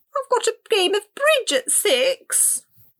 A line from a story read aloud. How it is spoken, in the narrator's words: Rosalba whimpered